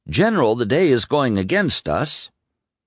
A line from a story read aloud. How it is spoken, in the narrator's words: the stern-lipped Jackson calmly replied